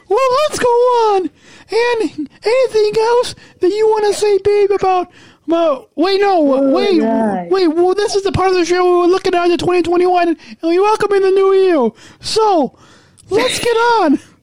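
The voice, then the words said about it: High-pitched put-on voice. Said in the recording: “that's like a high-pitched voice ... in my high voice?”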